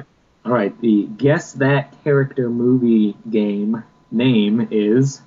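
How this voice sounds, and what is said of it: Usual voice. Nothing is said of it.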